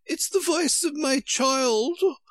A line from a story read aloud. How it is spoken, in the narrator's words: the White Queen cried out